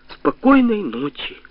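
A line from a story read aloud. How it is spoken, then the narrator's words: Plain. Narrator (Russian): сказал Дима всем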